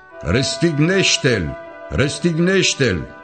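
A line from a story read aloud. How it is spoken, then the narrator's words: Crowd shouting. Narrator (Romanian): preoții cei mai de seamă și aprozii, au început să strige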